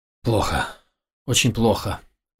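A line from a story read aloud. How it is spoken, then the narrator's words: Muttered. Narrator (Russian): пробормотал ее брат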